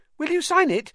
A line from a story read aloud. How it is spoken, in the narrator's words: said Colin eagerly